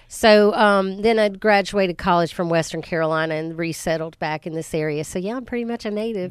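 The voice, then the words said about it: Noticeable local regional accent. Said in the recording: “You couldn't tell by my accent, could you?”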